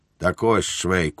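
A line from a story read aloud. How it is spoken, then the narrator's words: Solemn tone. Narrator (Ukrainian): сказав поручник урочистим тоном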